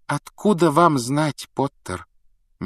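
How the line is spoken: Gentle objection. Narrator (Russian): мягко возразила МакГонагал

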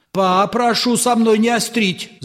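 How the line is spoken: Sudden loud shout. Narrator (Russian): закричал вдруг Чарушников на всю улицу

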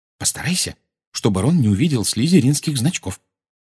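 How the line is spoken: Whisper. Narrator (Russian): шепнула она

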